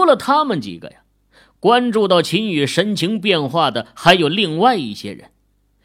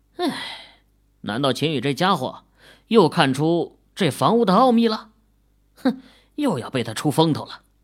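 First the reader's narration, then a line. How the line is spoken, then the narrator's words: Muttering. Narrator (Chinese): 莫永兴嘀咕道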